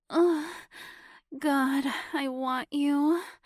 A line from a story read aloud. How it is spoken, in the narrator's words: Sabrina moaned when her orgasm had finally subsided, leaving her still just as horny as ever